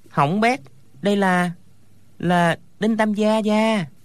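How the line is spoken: Trembling voice. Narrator (Vietnamese): run rẩy nói

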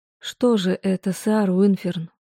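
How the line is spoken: Weak quiet mumble. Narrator (Russian): Тихо пробормотала я, ощущая невероятную слабость во всем теле

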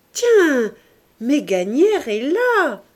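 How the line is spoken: Exclaimed. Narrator (French): s'écria Sandoz

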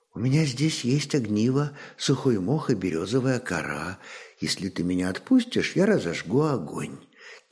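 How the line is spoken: Quiet whisper in ear. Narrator (Russian): тихо прошептала она ему на ухо

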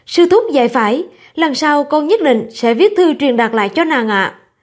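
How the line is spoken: Shaken but smiling. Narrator (Vietnamese): Tài Doãn rùng mình mỉm cười nói với thầy Đồ Lâm

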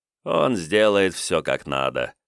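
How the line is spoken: Ruler's grunt. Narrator (Russian): хмыкнул властелин Жмуди

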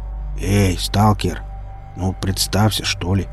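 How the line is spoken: Quiet mercenary request. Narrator (Russian): негромко попросил наемник

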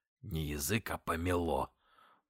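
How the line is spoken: Muttered through teeth, official. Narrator (Russian): процедил сквозь зубы урядник

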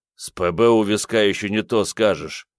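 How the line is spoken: Grumble. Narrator (Russian): проворчал тот

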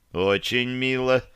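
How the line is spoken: Muttered under breath. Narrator (Russian): Пробурчал я себе под нос

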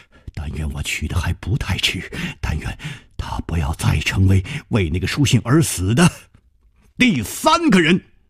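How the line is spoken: Muttering. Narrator (Chinese): 他喃喃的说

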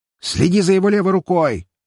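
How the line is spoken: Sharp bark. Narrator (Russian): рявкнул он

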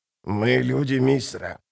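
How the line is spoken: Creaky old woman's voice. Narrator (Russian): проскрипела старуха

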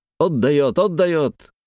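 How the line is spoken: Enthusiastic soldierly shout. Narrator (Russian): восторженно закричал кто-то по-солдатски

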